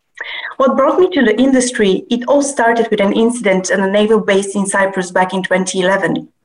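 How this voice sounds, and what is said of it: Non-native English accent. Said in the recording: “As you can tell from my accent, I was raised in Bulgaria, Russia, and Cyprus.”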